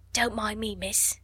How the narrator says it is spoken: whispered Becky

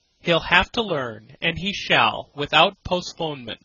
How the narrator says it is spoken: Scott said

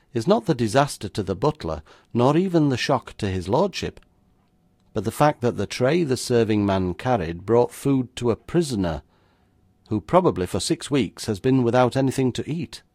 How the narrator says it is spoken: I went on calmly

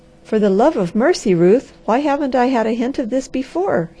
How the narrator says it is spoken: he cried

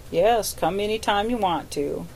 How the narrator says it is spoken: said my host

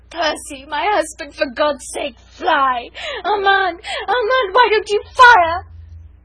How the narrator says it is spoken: moaning, bruised, not caring, but still half-sobbing, half-shrieking

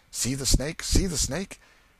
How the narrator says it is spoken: Simmons, the enchanter, exclaimed

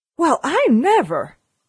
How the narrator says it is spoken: she exclaimed

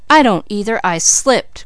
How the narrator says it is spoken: cried James

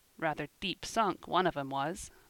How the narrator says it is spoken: muttered Ben

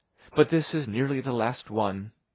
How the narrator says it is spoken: she would add, with a sigh

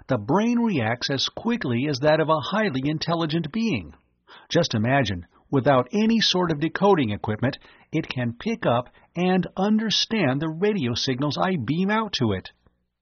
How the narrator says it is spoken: exclaimed

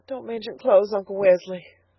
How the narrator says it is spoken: sobbed Elnora

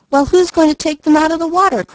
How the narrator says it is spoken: cried Malcolm

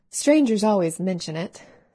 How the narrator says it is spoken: sighed Elnora

